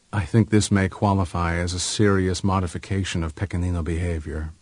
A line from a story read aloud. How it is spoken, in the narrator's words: Pipo said gravely